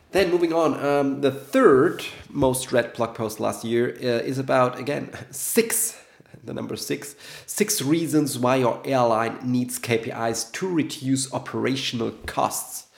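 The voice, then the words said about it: Sick, slightly rough voice. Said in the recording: “I'm still a little bit sick, so sorry for the voice.”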